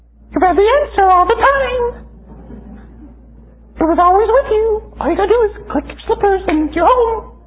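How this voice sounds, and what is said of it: Annoying little character voice. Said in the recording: “in that annoying little voice”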